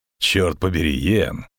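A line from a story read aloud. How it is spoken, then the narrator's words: Guffawing. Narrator (Russian): захохотал ведьмак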